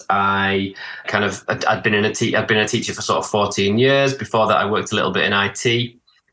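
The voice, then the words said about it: Northern English accent, slight Manchester. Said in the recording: “your beautiful accent ... I'm from the UK. So I'm from the north of England ... I have a little bit of a Manchester accent, but I'm from the northeast originally”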